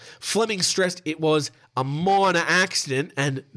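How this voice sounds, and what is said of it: Usual voice. Nothing is said of it.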